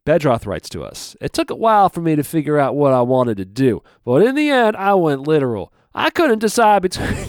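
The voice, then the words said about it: Put-on twangy accent. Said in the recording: “twang on it? ... Yeah, a little twang on it. ... Not with the twang. ... That little twang.”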